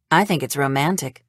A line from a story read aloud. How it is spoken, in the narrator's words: Wendy says